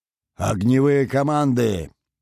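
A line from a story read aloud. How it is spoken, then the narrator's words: Booming roar everywhere. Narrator (Russian): Рычание базы долетело до каждого уголка Цепеля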